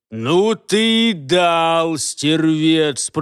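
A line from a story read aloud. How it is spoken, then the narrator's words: Booming voice from above. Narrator (Russian): прогудел над ним Джаргул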